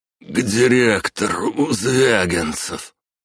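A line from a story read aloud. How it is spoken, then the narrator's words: Wheezed on coming to. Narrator (Russian): Очнувшись, прохрипел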